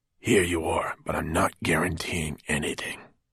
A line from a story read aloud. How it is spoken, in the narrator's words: Fenolio whispered to her